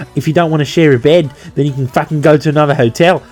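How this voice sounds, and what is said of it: Bad put-on Australian accent. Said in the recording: “I'm sorry for the bad Australian accent, but it just came out.”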